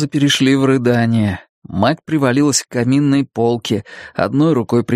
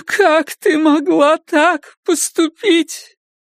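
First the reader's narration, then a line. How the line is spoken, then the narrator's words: Speaking through tears. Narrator (Russian): Теперь Карла говорила сквозь слезы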